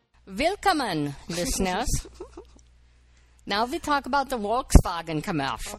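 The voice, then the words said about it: Deliberately bad put-on accent. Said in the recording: “I'll drop my bad accent.”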